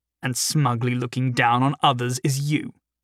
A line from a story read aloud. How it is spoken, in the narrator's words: Thadwick spat back